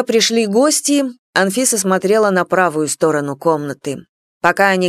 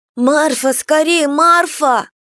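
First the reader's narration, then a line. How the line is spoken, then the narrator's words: Girl shouting. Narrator (Russian): закричала девочка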